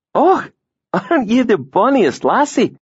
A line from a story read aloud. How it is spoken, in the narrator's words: he exclaimed